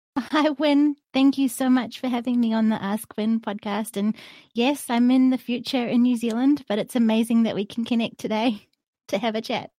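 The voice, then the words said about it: New Zealand accent. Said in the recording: “lovely new Zealand accent”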